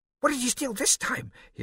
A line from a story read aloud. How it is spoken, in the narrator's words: he asked excitedly